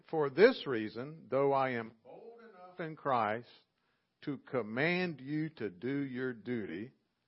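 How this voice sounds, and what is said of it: Southern US accent. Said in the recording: “non-Southern dialect folks listening, because they might not know what to do with my accent or my y'all”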